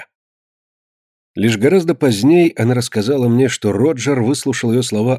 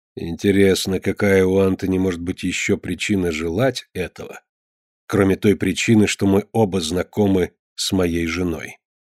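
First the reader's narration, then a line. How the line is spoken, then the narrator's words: Smiling mutter. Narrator (Russian): он улыбнулся и пробормотал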